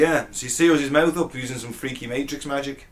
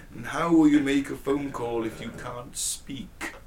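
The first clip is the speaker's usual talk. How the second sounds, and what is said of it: Poor film villain impression. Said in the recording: “my worst Agent Smith impression ever ... It was terrible. I tried to put emphasis on the K, it didn't work.”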